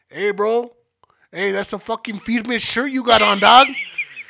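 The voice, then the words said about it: Imitates another person's accented voice. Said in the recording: “You got to do it with the accent. Exactly how he sounded.”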